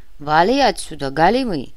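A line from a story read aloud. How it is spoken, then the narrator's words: Growling. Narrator (Russian): прорычал драгдилер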